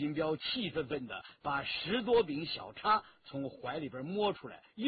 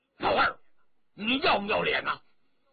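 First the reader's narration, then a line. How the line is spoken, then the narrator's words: Loud roar. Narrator (Chinese): 顾金彪大吼一声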